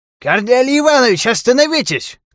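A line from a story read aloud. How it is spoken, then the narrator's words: Shout while running. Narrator (Russian): крикнул профессор, подбегая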